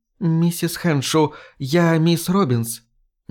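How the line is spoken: Timid. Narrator (Russian): Она робко сказала

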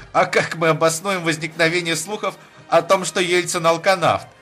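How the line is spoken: Giggling question. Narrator (Russian): спросил хихикающий Юмашев

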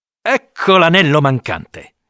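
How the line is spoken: Exclamation. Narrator (Italian): esclama

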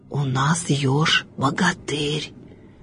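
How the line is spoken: Frightened whisper. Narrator (Russian): Шепотом со страху говорили звери

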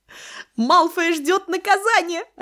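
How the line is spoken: Joyful shout. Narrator (Russian): радостно выкрикнула она

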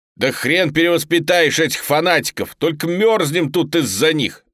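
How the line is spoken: Angry. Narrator (Russian): Зло проговорил Брюханов

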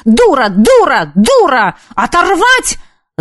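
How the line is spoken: Yelled. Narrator (Russian): заорала она

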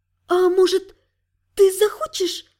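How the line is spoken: Timid, shallow-breathed question. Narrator (Russian): робко спросила, стараясь дышать как можно реже

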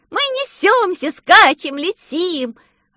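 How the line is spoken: Ecstatic yell, female. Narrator (Russian): восторженно завопила Алена

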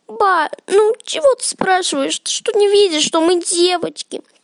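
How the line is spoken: Whining. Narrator (Russian): проскулила Манюня

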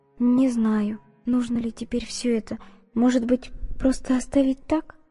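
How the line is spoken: Bewildered whisper. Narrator (Russian): растерянно прошептала Изольда

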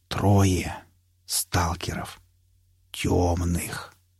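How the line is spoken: Ominous whisper. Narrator (Russian): зловеще прошептал он

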